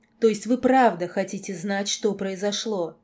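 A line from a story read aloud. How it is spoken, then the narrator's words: Grimacing growl. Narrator (Russian): Скривившись, лорд прорычал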